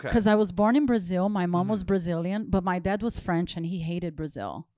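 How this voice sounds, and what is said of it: Foreign accent. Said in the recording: “I guess that's why I have the accent.”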